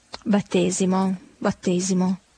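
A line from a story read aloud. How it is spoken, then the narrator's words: Whispered reply. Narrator (Italian): sussurrando replicò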